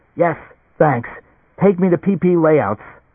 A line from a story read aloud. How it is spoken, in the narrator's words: Gasping, almost unable to breathe, Leo said